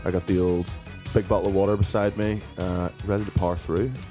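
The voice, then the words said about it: Hoarse voice from a cold. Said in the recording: “fairly loaded with the cold... The throat's not too good, as you can probably hear in my voice... I think it sounds sexy now”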